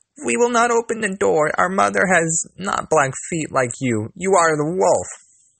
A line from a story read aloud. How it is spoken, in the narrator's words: the children cried